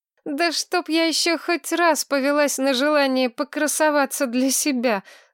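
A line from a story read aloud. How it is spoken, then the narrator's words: Groaning lament. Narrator (Russian): застонала Маргарет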